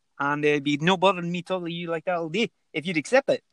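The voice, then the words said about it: Put-on Scottish accent. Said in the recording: “give us one more accent ... I'll do Scottish”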